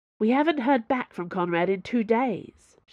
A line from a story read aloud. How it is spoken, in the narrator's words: Chevreuse snapped